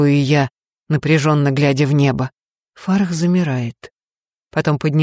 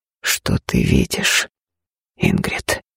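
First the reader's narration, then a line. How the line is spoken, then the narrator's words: Low voice. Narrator (Russian): спрашивает низким голосом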